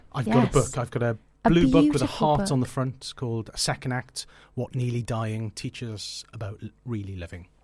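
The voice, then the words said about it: Welsh accent. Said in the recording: “Welsh ... I thought I detected ... An accent.”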